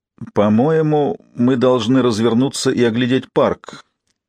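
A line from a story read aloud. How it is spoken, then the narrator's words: Uncertain voice. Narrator (Russian): неуверенно произнесла Кларисса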